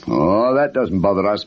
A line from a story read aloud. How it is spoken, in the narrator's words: boomed Mr